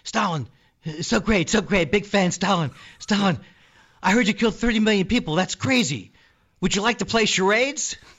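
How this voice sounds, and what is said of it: Imitates another person's voice. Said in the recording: “my impression of uh, Jimmy Fallon interviewing uh, Stalin.”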